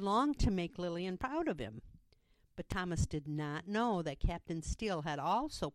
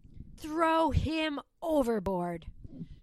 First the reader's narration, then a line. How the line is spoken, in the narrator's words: shouted Ross